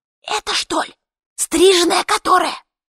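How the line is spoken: Sudden loud whisper, woman. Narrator (Russian): одна из женщин произнесла вдруг оглушительным шепотом

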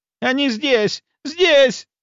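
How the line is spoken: Shrill shriek. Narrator (Russian): завизжала она

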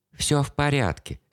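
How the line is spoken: Soft gentle voice. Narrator (Russian): сказал он мягко

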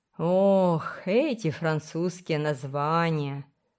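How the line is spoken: Moaned. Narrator (Russian): простонала Сюзан

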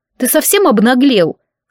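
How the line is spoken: Snorting again. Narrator (Russian): снова фыркнула

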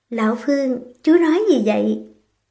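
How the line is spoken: Smiling. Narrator (Vietnamese): Phương Trừng Châu chỉ mỉm cười

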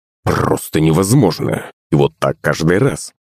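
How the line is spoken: Gloomy mutter. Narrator (Russian): пробормотал хмурый батя

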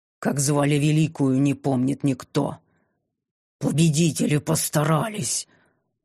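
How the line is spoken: Furious hiss, old woman. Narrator (Russian): прошипела старуха с такой яростью

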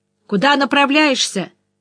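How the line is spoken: Shouted over shoulder. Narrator (Russian): прокричал Финнеган через плечо

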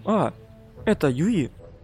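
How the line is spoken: Quiet. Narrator (Russian): негромко сказала девушка рядом с Миурой

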